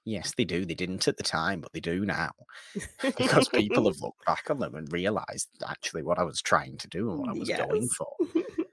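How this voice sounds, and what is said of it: Imitates another person's voice. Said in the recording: “That's not how George Lucas talks. It would be very light. I can't do a good George Lucas impression. That's such a hard impression.”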